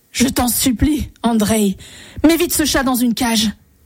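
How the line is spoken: Terrified exclamation. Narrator (French): s'écria le tsar, rempli d'épouvante

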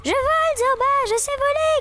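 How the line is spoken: Euphoric shout from the sky. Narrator (French): cria-t-elle euphorique depuis l'immensité du ciel gris

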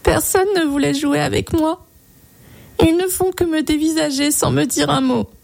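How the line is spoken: Little girl sobbing. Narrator (French): sanglota la petite

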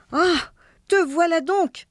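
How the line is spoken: Wife exclaiming. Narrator (French): s'écria sa femme

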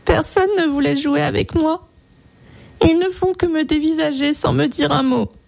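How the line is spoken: Little girl sobbing. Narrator (French): sanglota la petite

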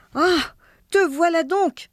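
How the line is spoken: Wife exclaiming. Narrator (French): s'écria sa femme

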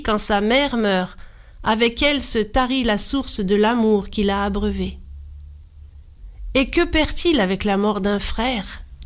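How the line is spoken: Plain. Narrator (French): Jiranché répondit

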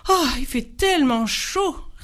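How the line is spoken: Sighing. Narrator (French): soupirait le numéro 3

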